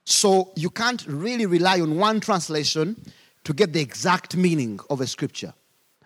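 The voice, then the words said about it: Speaks with an African accent. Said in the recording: “I'll read in my accent, an African accent”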